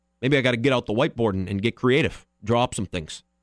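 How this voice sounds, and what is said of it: Imitates another person's voice. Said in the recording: “There's my $2 Mike McCarthy impersonation for the day.”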